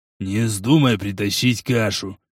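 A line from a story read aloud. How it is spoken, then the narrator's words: Furious hiss in ear. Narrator (Russian): яростно зашипел он на ухо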